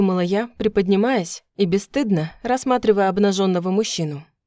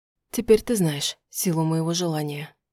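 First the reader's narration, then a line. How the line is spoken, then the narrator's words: Quiet. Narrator (Russian): тихо сказал он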